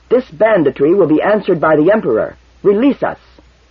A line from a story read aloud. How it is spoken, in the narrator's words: He said fiercely